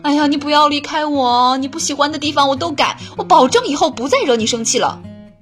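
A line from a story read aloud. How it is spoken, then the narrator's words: Desperate pleading. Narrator (Chinese): 男朋友会苦苦哀求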